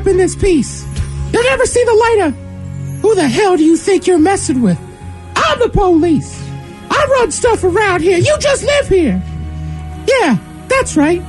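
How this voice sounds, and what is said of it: Mickey Mouse voice. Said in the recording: “in his Mickey Mouse voice”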